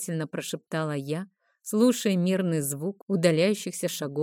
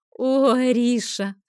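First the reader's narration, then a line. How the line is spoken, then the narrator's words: Laughing. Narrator (Russian): рассмеялась Айла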